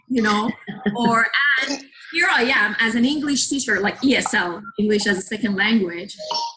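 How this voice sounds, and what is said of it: Non-native English accent. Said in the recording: “I am still very conscious of my English... oh, where is your accent from?”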